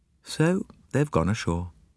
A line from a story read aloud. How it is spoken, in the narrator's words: she said flatly